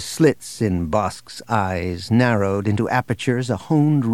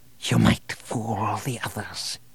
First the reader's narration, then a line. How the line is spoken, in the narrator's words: he whispered